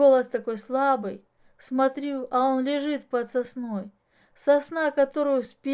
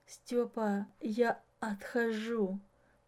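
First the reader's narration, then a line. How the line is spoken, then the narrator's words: Whisper. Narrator (Russian): прошептал Аким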